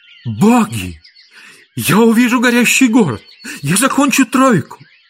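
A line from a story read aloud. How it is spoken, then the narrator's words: Exclaimed. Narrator (Russian): Нерон воскликнул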